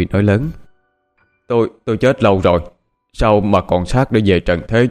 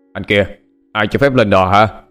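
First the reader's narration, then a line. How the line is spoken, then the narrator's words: Startled yelling. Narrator (Vietnamese): Anh ta tỏ vẻ sửng sốt, tiếng quát tháo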